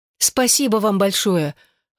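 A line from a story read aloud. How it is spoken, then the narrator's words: Tearful exclamation. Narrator (Russian): воскликнула Элизабет, вытирая глаза тыльной стороной ладони, а нос рукавом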